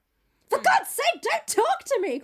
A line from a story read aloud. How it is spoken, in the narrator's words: cried Dorian